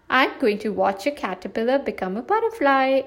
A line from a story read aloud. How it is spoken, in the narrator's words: exclaimed Flora